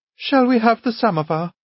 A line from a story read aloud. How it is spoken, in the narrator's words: she asked timidly